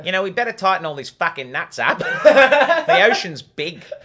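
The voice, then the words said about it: Put-on Australian accent. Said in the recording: “Big was the best Australian accent.”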